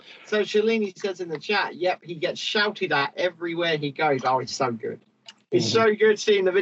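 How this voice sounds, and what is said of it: Usual voice. Nothing is said of it.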